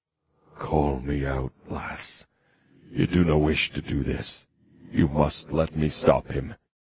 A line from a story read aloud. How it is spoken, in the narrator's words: he said softly